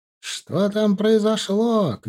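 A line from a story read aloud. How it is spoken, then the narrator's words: Distant shout from street. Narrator (Russian): кричал кто-то на улице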